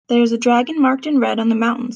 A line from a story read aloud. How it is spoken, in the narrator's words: said Balin